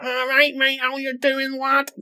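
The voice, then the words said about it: Mocking put-on scally accent. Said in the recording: “some like weird scally shuffling up... Talking like the fucking Mickey Mouse, lad... putting on the fake voices”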